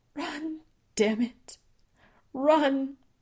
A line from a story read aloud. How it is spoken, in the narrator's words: she begged